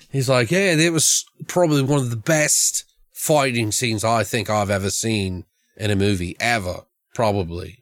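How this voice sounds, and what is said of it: Fake British accent, sounds Australian. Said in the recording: “This is my fake British accent, by the way, which very much is like Australian, because once you go, you can't split the two up”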